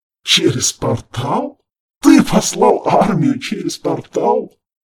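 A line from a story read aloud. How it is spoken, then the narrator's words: Uncontrollable laughter. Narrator (Russian): Харган сложился пополам от хохота, не в силах остановиться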